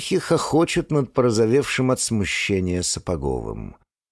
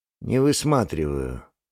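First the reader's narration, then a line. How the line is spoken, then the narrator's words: Very dry reply. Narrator (Russian): максимально сухо отвечает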